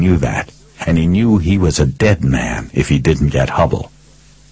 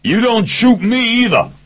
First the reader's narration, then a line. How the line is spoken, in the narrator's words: Picard screamed